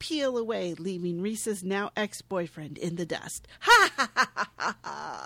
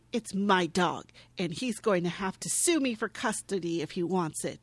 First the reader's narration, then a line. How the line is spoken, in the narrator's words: She states firmly